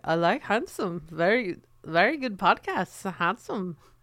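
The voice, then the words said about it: Poor attempt at Dutch accent. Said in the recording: “I'm not nailing the Dutch accent ... You really aren't.”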